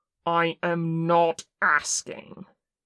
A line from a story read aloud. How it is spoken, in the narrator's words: Kim snarled